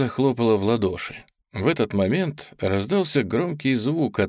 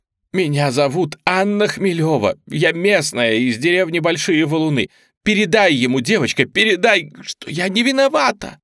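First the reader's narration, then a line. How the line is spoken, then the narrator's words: Tearful shouting woman. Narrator (Russian): в слезах кричала женщина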